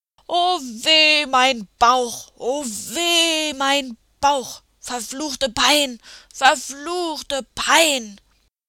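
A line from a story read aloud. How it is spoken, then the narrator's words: Screaming in pain. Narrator (German): schrie der Mondmann und wälzte sich auf dem Boden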